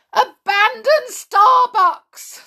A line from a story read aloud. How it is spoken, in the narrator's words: screamed a member of staff